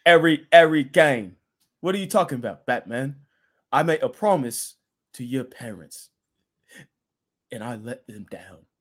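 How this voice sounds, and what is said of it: English accent impression of Alfred. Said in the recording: “I always say it like I'm Alfred from Dark Knight. His accent. Every game. It sounds just like him. That was Alfred... That accent, that's the English accent... That was perfect... That was awful.”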